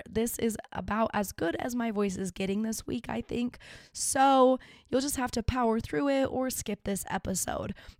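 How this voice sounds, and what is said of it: Rough, sick-sounding voice. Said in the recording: “Sorry about my voice. It is so horrific to listen to. I'm sure I've been very sick”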